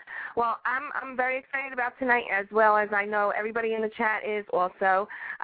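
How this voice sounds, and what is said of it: Congested voice from a cold. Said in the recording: “I have a little bit of a cold.”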